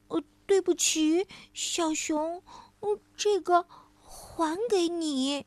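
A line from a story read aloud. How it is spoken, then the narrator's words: Hurried soft voice. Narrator (Chinese): 小兔子就连忙 小声地说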